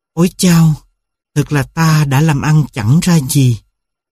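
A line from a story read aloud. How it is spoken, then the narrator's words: Sighing. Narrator (Vietnamese): Một người lắc đầu thở dài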